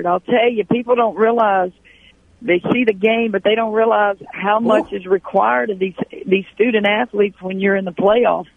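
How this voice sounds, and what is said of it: Slightly hoarse voice. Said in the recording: “my voice is back a little bit, still a little bit hoarse.”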